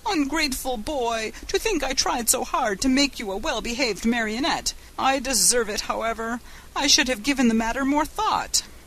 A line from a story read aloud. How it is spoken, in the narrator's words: The poor old fellow wept and wailed like a child and said between his sobs